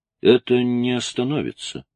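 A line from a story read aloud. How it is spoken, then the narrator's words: Solemnly repeated. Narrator (Russian): повторил Тоби торжественно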